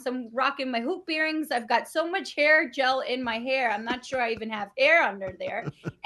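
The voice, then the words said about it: New York accent. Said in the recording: “I have a New York accent. I sound like, you know, Rosie Perez and Jennifer Lopez and a little bit of Cardi B.”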